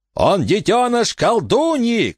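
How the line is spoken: Shouting from deep inside. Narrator (Russian): кричал Лейтон из глубины палатки

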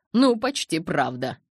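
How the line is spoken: Stifled laugh. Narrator (Russian): Эдвард сдавленно рассмеялся

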